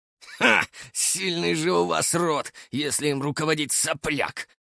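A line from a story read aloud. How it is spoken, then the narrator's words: Scoffing snort. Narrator (Russian): Хмыкнул Илья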